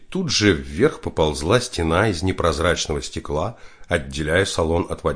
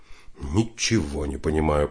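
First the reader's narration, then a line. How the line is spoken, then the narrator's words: Mutter. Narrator (Russian): пробормотал Карнович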